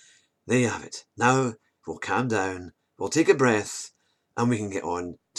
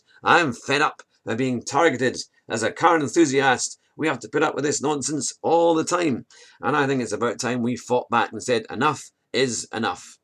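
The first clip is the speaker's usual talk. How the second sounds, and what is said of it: Enraged, angry tone of voice. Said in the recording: “You can tell in my voice, I'm enraged.”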